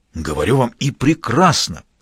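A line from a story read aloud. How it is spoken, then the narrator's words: Enthusiastic exclamation. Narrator (Russian): с неподдельным энтузиазмом воскликнул Адашов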